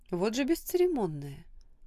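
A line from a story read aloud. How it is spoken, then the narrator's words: Deep sigh, restrained indignation. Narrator (Russian): глубоко вздохнула, сдержав свое возмущение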